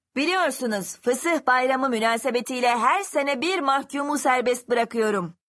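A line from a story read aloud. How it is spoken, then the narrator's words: Shouting with last hope. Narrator (Turkish): diye bağırdı son bir umutla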